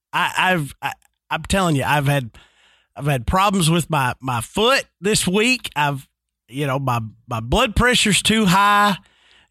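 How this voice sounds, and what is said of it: Deep congested allergy-affected voice. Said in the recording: “my new sexy radio voice, then it's thanks to pollen ... This voice sponsored by Ragweed.”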